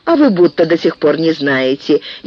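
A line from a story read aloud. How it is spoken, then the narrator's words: Snide remark. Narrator (Russian): ехидно заметила Акоги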